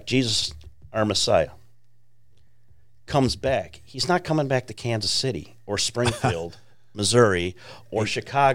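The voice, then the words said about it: Chicago accent. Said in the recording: “I'm from originally Chicago, if you haven't picked up on my accent”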